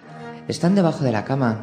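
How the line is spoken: Plain. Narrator (Spanish): dijo

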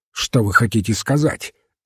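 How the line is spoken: Sharp question. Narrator (Russian): резко спросил Мускари

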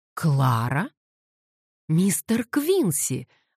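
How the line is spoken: Joyful maid's exclamation. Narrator (Russian): воскликнула горничная радостно

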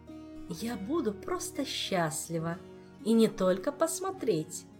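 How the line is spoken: Purred. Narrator (Russian): промурлыкала

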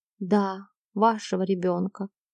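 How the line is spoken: Whisper. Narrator (Russian): прошептала Джейн

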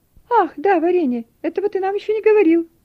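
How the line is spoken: Exclamation. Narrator (Russian): воскликнул Пепс

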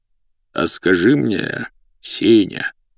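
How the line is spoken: Ingratiating insinuating tone. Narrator (Russian): вкрадчиво произнес дотошный господин

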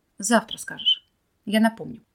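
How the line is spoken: Peaceful voice. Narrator (Russian): умиротворенным голосом сказала Юля

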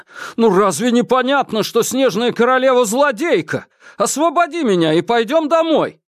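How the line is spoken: Shouting. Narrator (Russian): Юра закричал

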